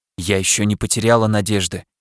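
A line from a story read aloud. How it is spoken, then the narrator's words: Whisper. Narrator (Russian): шепнула я ему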